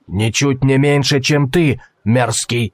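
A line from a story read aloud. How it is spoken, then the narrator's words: Growl. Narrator (Russian): прорычал торговец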